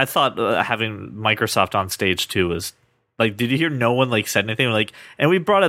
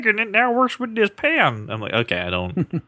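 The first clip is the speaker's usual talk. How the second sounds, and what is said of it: Imitates another person's voice. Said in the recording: “my Tim Cook impression”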